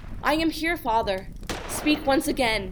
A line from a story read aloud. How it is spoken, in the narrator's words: gasped